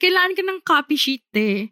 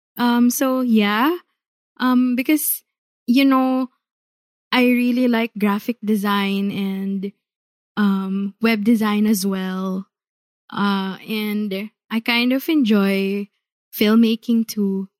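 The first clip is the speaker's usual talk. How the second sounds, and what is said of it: Put-on vlogger-style speaking voice. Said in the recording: “You're all vlogger accent... magsalita parang vlogger”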